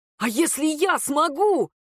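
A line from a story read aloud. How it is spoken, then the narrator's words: Joyful shout. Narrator (Russian): выкрикнул радостно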